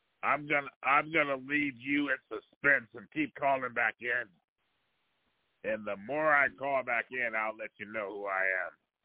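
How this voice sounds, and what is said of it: Rough, poor-sounding voice. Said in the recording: “You sound terrible. ... I've had a couple of drinks tonight, so my voice is not at its best. ... You still sound terrible.”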